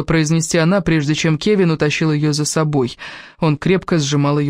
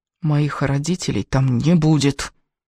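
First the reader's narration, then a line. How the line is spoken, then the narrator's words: Hiss through teeth. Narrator (Russian): прошипела сквозь зубы Элис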